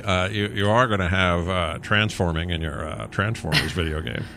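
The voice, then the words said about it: Bad imitation of another person's voice. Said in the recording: “bad Jeff Goldblum impression becomes the Joker very quickly”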